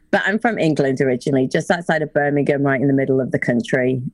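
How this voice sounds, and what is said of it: Muddled British-American accent. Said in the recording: “my accent's kind of jacked up now, but you know, it's not like it used to be... I'm like middle America slash British. That's what my accent is now... it is kind of like one of those muddled”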